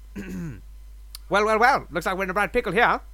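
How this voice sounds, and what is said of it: Funny meme character voice. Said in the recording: “do a funny meme voice”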